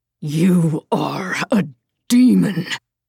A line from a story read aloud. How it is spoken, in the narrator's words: Sarek spat in Rufina's face